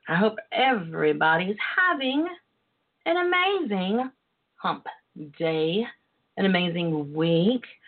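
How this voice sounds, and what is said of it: Southern twang accent. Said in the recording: “by the sound of my twang and my voice”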